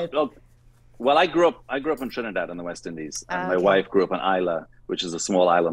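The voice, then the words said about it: Mixed Scottish and Trinidadian accent. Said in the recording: “It's like Scottish or Irish or something. ... my accent is an amalgamation of Scottish, Trini, Peruvian, English. Scottish. It's just, it wanders all over.”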